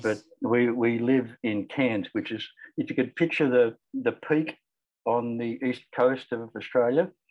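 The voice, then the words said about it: Australian accent. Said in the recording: “You can probably tell from the accent that I'm Australian.”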